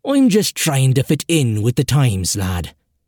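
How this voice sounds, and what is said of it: Irish accent. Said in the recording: “Letting my Irish mother tongue come out”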